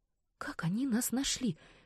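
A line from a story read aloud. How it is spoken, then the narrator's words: Breathless whisper. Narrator (Russian): прошептала Рейна, жадно глотая воздух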